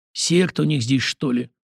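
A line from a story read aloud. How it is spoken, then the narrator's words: Barely audible cold mutter. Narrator (Russian): едва слышно пробормотал Зимин с холодным любопытством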